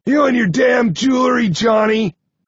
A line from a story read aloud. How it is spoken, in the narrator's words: Nine grunts